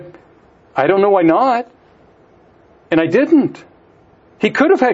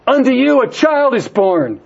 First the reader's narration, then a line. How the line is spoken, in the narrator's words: She hollered, as if it was, for sure, the best news in the world